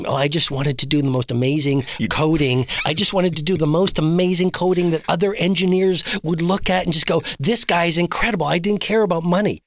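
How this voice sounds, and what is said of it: Imitates another person's voice. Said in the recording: “that's a very good impression of him”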